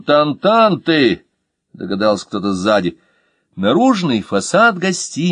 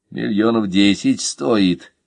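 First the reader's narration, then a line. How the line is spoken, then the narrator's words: Sigh from behind. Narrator (Russian): вздохнул кто-то сзади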